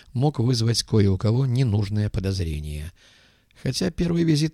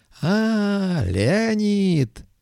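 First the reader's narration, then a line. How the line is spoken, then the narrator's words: Joyful yell. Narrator (Russian): радостно завопил Стивен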